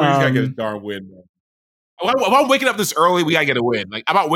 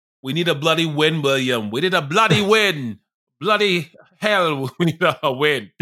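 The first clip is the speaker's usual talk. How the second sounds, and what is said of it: Poor put-on London English accent. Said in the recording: “Is that Australian or is that British? ... no, it's British. ... English, ... London. ... I'm terrible. ... You can be our accent guy.”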